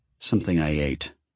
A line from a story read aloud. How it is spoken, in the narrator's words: Ben muttered